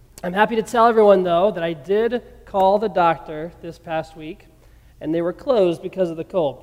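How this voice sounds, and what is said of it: Sick-sounding voice. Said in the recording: “as you can probably hear in my voice ... I am still not quite over this sickness I've been struggling with”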